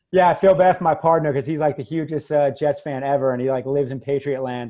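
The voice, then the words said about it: New York accent. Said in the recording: “I'm originally from New York, which most people probably heard the accent already ... they would make fun of my New York accent”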